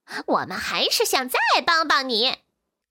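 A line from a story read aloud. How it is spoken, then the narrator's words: Monkey, broad laughing. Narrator (Chinese): 猴子咧嘴大笑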